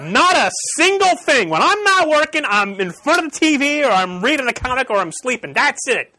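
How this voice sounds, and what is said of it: Yelling, loud voice. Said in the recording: “Why am I yelling?”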